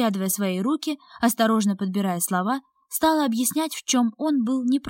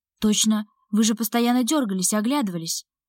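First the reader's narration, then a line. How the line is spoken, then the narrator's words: Disappointed exhale. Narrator (Russian): разочарованно выдохнул он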